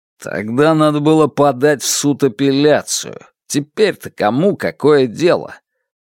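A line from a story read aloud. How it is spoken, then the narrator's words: Impatient grumble. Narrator (Russian): проворчал охранник, больше не желая тратить время на бесполезные препирательства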